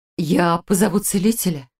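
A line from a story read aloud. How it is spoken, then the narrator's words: Flustered, abrupt. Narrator (Russian): растерянно бросила Иллиурия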